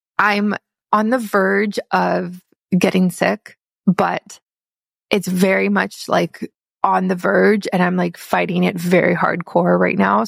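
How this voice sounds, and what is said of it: Croaky, slightly congested voice. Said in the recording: “My voice is a little croaky this morning ... I can just hear it in my voice and in my sinuses”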